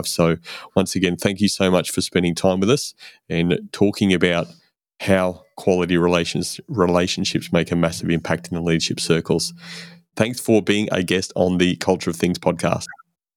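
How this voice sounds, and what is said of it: Australian accent. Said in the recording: “I got to hear a Aussie accent again”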